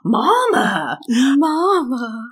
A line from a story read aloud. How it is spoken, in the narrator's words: Max in his little southern accent goes